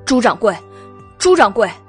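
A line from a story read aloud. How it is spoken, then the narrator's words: Shouting. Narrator (Chinese): 袁耀…喊道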